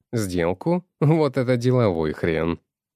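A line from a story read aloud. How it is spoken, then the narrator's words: Fat man laughing. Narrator (Russian): засмеялся толстый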